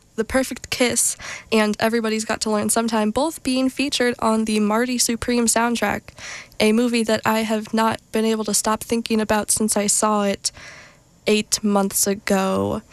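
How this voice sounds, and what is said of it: Nasal, congested, slightly short of breath. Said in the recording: “I am still suffering from allergies, which I don't know if you can hear it in my voice. I am a little nasally, a little short of breath because of all the snot in my throat.”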